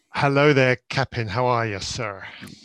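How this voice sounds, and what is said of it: Bad put-on pirate accent. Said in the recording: “If that was a pirate accent, you're fired. worst I've heard. Worst I've heard. And I've heard a lot of bad pirate accents.”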